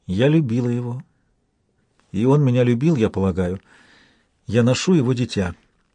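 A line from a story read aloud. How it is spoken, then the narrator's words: Quiet speech. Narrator (Russian): она тихо проговорила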